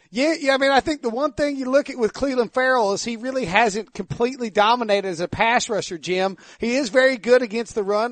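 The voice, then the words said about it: Exaggerated Eastern North Carolina southern accent. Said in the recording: “Eastern North Carolina redneck accent ... leaning full tilt, like, fully into this accent”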